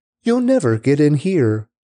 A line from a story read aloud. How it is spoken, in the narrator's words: The people of Jebus taunted David, saying